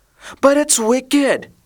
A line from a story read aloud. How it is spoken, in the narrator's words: exclaimed Martha